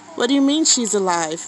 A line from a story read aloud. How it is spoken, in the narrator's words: Leon said